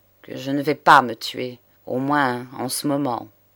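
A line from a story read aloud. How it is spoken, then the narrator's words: Cold reply. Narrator (French): reprit froidement l'avocat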